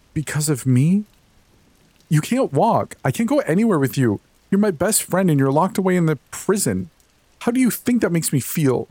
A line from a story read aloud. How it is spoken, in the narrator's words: Ugly, retching sobs ripped past Jade's lips